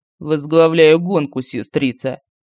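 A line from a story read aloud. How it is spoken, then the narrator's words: Mocking. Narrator (Russian): ответил Киман не менее насмешливо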